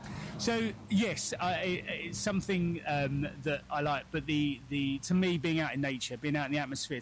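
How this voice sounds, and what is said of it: London accent. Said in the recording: “you can tell from my accent, I'm from London parts”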